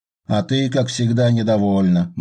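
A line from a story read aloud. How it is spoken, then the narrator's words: Gloomy remark. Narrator (Russian): мрачно заметил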